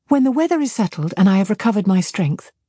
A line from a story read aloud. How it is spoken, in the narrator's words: said she